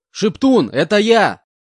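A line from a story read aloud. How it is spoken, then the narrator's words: Shouting at top of lungs. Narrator (Russian): кричал я во всю глотку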